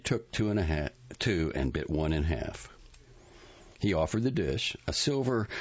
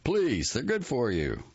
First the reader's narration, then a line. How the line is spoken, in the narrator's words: Richard was so far from expecting refusal that out of momentum, he pressed them on her again, exclaiming